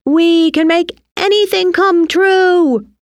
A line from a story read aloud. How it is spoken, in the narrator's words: they shouted together